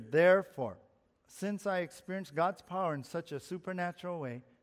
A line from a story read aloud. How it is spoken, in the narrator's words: he says